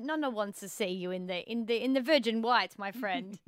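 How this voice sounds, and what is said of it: Put-on Italian accent. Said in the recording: “I'll never do an Italian accent again.”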